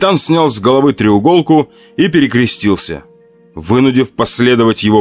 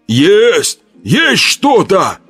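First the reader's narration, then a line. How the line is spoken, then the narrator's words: Incredulous shout, big fellow. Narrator (Russian): Словно не веря в удачу, закричал один детина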